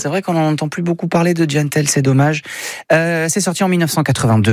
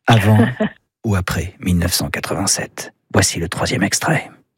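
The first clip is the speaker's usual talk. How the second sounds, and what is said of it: Suspenseful voice. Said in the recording (French): “prends ma voix de suspense”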